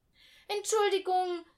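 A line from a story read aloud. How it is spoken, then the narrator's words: Called out. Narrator (German): rief Jan-Paul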